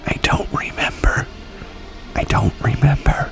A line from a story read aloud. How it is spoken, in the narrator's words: Clark whispered